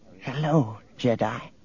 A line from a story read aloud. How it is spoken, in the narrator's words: A thin little woman brightened and whispered